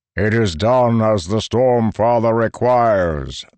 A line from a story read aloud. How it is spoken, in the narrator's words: the marble one replied, voice booming